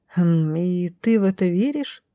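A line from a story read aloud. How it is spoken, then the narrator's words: Confused bleating. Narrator (Russian): растерянно проблеяла я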